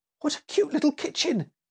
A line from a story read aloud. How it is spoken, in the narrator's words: exclaimed Annie